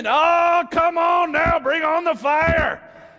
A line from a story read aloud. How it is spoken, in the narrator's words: They start screaming